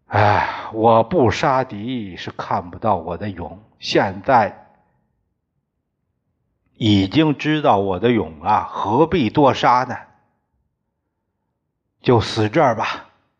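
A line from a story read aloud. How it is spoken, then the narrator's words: Sighing to himself. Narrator (Chinese): 他自叹一声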